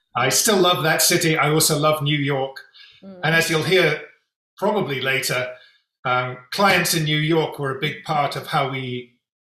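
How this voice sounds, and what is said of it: London English accent. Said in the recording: “I was born in London, so that's what you can hear in my accent.”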